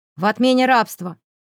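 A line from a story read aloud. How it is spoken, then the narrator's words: Irritated, curt. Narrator (Russian): раздраженно бросил Ник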